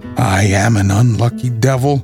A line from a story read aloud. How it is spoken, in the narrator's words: growled Huey